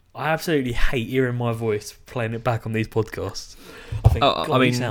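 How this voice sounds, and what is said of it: Usual voice. Nothing is said of it.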